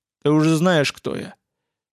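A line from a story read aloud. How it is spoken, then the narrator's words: Growl. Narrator (Russian): Владимир прорычал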